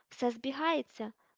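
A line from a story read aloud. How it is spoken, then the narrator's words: Exclaimed. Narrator (Ukrainian): вигукнула Герміона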